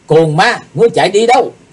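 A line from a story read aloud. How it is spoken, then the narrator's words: Loud shout. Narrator (Vietnamese): Chí Tôn quát to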